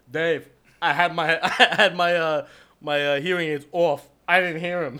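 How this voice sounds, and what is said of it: Imitates another person's voice. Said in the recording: “Why do you do the voice though? ... You gotta do the voice.”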